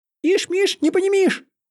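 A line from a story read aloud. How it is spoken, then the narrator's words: Squeaky, hasty. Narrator (Russian): пискнул черт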